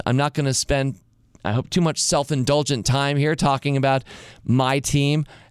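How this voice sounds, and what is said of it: Slightly hoarse voice. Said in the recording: “my voice broke earlier and I might sound a little hoarse”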